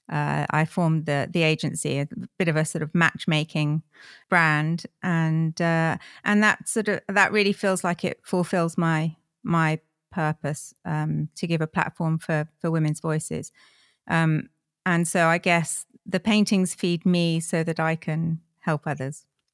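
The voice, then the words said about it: British English accent. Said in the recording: “you have an accent that sounds like you perhaps are from the UK”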